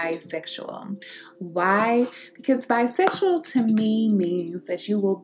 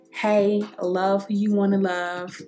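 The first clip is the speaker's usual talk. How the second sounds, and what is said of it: Imitates another person's voice. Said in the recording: “in my Ray J voice”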